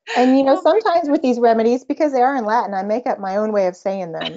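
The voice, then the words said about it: Texas accent. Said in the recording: “Is this your accent coming through? ... yes, this is Texas. We speak differently down here. ... I think it's your accent for sure”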